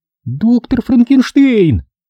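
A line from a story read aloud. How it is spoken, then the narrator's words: Exclaimed. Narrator (Russian): воскликнула она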